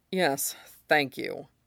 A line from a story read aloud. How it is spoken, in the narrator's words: Mustang muttered, rubbing his jaw